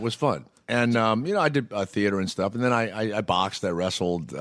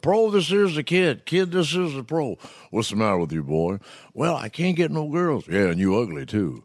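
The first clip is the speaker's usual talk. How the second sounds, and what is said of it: Imitates another person's voice. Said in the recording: “Bill Cosby, I did all the football stuff”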